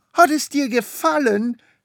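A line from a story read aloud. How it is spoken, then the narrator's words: Shout. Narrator (German): schrie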